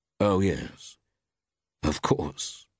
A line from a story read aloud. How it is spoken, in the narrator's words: murmured Temple